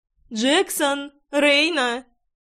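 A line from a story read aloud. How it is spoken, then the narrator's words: Loud call. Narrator (Russian): громко позвала их Лидия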